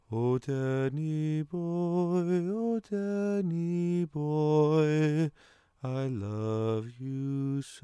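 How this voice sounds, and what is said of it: Bad put-on Irish accent, singing. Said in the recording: “a really awful Irish accent ... I think it was more Australia. I couldn't really tell. It was very bad anyway ... the Irish accent”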